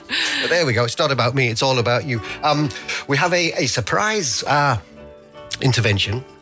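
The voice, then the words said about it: Manchester accent. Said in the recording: “I've got more of a Manchester accent than you.”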